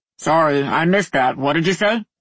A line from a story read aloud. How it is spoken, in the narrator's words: His voice came from under the cot and sounded distant, like the guy was standing too far from a microphone